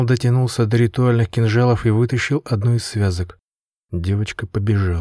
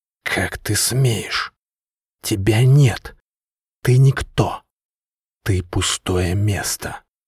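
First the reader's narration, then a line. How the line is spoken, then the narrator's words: Furious hissing. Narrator (Russian): шипела голова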